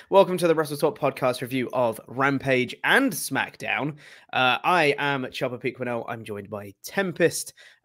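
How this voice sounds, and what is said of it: Slightly strained, recovering voice. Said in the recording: “My voice is still recovering a little bit from karaoke 2 nights ago.”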